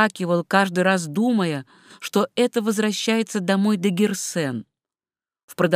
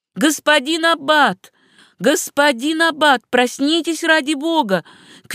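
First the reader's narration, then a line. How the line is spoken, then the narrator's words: Frightened shouting. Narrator (Russian): кричал чей-то испуганный голос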